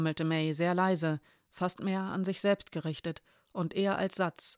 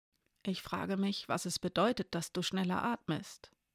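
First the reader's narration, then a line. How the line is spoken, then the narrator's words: Quiet. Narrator (German): sagte Elena leise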